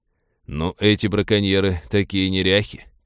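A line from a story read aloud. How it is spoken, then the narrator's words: Muttering. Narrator (Russian): пробормотал Винни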